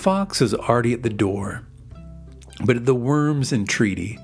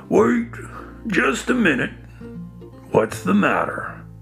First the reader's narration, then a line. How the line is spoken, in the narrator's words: Made uneasy by the fox's words, the worm cried out